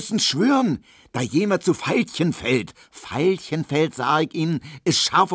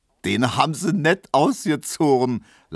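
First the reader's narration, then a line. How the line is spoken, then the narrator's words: Laughing. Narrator (German): lachte Neumann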